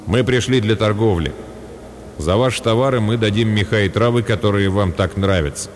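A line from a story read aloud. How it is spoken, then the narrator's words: Cold. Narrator (Russian): Тилитур холодно выслушал меня, а затем сказал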